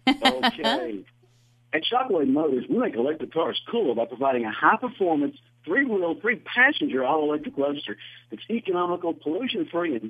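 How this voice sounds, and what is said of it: Speaks with a noticeable accent. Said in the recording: “I get to hear your fabulous accent.”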